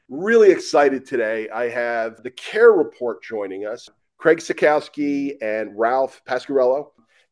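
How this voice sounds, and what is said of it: Voice sounds congested, slightly off. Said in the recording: “I've got a little bit of a cold. So just want to let folks know that, maybe if my voice sounds a little bit different, why that is.”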